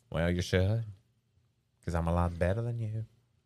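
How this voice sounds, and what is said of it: Weird funk-guy character voice. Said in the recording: “It's a new character... He's a funk guy... He only talks like this... you have a weird voice”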